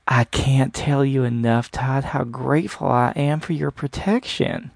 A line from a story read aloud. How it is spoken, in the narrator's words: Penelope said in a slight southern drawl that stretched out her words